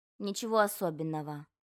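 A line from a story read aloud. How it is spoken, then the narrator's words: Mumbled. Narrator (Russian): пробормотал Мумитроль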